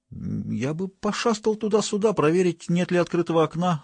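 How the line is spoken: Timid. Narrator (Russian): робко сказал Штырь

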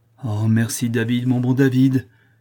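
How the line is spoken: Effusive exclamation. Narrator (French): s'écria avec effusion

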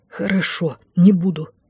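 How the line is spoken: Hoarse, shaken reply. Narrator (Russian): хрипло отозвался маг, видимо, впечатлившись выражением ужаса на моем лице

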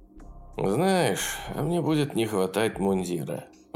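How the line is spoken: Sigh. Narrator (Russian): вздохнул

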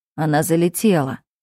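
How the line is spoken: Calm explanation. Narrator (Russian): спокойно объясняет брат

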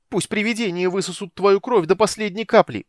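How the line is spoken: Angry shout. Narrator (Russian): выкрикнула она со злостью

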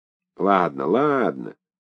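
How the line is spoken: Conciliatory grumble. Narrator (Russian): примирительно проворчал комиссар

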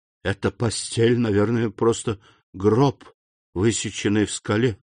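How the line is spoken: Whisper. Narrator (Russian): прошептал Данглар

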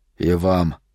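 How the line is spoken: Quiet. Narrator (Russian): тихо сказал Палатазин

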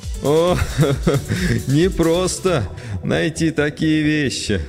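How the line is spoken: Laughing speech. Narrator (Russian): рассмеялся Родригес

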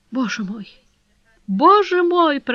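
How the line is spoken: Broken, sobbing voice. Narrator (Russian): проговорила она разбитым голосом, в котором слышались рыдания

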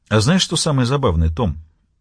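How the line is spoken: Calm question. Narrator (Russian): спокойно спросил Мюррей

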